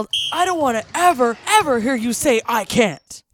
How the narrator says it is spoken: my coach spitting in my face as he yelled

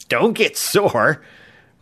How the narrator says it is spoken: Rock gasped between chuckles

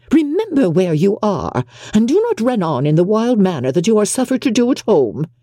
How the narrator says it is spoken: cried her mother

